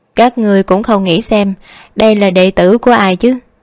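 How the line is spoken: Smiling. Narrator (Vietnamese): Hy Loan mỉm cười

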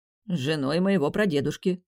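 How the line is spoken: Wry snort. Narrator (Russian): хмыкнул Тим

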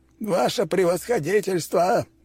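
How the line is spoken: Yell. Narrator (Russian): завопил он

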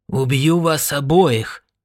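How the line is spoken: Hoarse shout. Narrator (Russian): хрипло крикнул он

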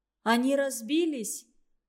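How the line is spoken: Sobbing, hoarse question. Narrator (Russian): схлипывая осипшим голосом, спросила Маринка

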